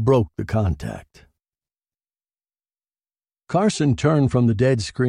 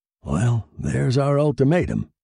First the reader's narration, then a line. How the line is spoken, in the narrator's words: said